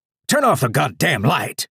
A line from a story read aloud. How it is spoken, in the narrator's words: Captain shouted, his voice booming across the feed in my head